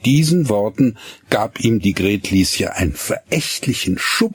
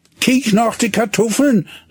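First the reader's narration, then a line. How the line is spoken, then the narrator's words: Calling after her. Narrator (German): rief Hinnerk ihr nach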